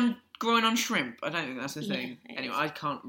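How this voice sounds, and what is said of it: Usual voice. Nothing is said of it.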